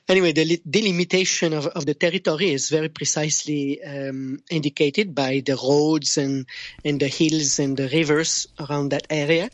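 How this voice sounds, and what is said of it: Thick French accent. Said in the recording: “my French accent, it always comes in the way. It's the thick tongue of a Frenchman.”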